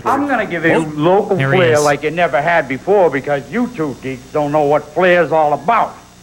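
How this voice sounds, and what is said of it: Thick Boston-pirate style accent. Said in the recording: “He sounds like he's from Boston, but also sounds like he's a pirate. Like, it's like very confusing. ... It's very thick accent”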